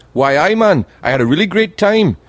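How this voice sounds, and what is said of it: Imitated Geordie Newcastle accent. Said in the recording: “I can't do the accent. They've got the best accent ever. The people from Newcastle, Geordie ... They speak like that. They're just on the border of Scotland. I can't do the accent”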